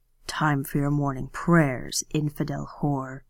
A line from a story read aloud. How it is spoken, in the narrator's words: Rolf grumbled